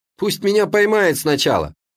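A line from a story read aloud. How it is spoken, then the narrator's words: Cheerful. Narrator (Russian): так же весело закончил я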